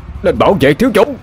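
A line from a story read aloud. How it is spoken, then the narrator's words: Shout. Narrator (Vietnamese): Huyền Thiên cũng thét lên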